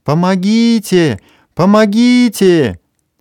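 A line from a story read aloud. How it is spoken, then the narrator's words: Sudden frantic scream. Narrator (Russian): вдруг истошно закричала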